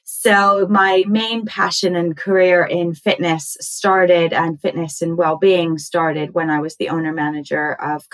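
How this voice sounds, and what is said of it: American accent. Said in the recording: “I might be confused about my accent and talking about Southwest London ... I was born and raised in the US”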